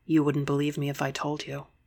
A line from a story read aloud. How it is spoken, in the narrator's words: I whispered